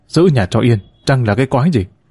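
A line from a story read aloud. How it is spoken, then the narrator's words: Irritated snap. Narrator (Vietnamese): Bác cả gắt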